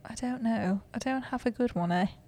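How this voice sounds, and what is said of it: Attempted British accent. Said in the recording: “Whoa, what was that? That was like. ... Is that British? ... I guess British, yeah. ... It's a little British, eh?”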